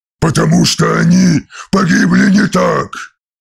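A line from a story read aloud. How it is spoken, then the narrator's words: Roar. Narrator (Russian): взревел Ангрон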